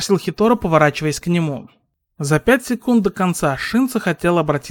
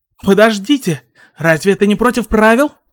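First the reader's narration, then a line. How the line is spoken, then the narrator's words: Sharp cry. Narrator (Russian): Шинса вскрикнул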